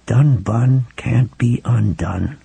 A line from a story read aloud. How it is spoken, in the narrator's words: Ralph murmured